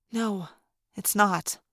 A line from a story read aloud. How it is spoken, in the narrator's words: I whispered